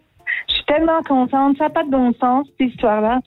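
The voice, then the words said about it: Imitates another person's voice. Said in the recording (French): “t'es douée en imitation? ... C'était Céline Dion.”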